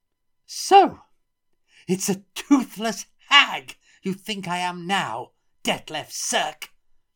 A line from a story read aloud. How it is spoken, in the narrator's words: shrieked Lily, her face reddening